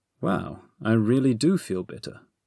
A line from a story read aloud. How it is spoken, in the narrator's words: he said